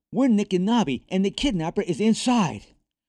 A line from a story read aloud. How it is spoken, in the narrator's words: Nick yelled